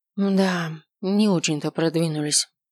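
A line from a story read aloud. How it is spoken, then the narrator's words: Sighing. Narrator (Russian): вздохнула Эри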